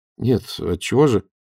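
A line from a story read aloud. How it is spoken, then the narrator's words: Muttered. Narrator (Russian): пробормотал Данилов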